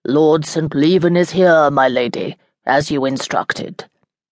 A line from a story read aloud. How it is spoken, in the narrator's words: Didier, Lucia's butler, said in his deep voice